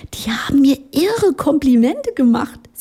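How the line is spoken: Giggling. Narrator (German): sie kicherte

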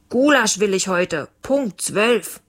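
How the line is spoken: Calling after someone. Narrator (German): Leons Papa rief ihm nach

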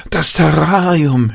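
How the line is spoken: Sudden cry. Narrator (German): schrie Jan auf

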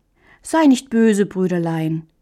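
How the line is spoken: Gentle reply. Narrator (German): erwiderte Hähnchen sanft

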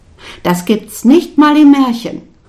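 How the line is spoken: Laughing. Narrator (German): ich lachte

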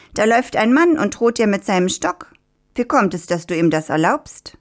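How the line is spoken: Rooster calling. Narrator (German): rief der Hahn

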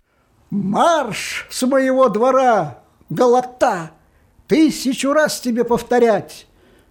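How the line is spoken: Shout from window. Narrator (Russian): Кушер закричал из окна

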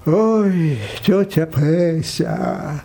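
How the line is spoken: Sighing. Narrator (Russian): вздохнул парикмахер

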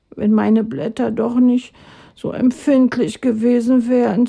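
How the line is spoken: Sighing. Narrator (German): seufzte er

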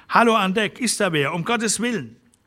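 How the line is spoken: Voice drowned by metallic roar. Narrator (German): Das metallische Dröhnen des Weizenstroms verschlang den Laut seiner Stimme

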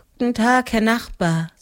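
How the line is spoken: Tired. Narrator (German): sagte sie müde

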